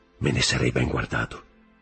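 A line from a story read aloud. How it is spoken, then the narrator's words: Added quietly. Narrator (Italian): soggiunse a bassa voce Danglars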